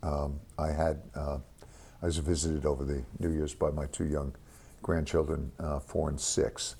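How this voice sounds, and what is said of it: Voice sounds sick. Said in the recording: “You may hear it in my voice.”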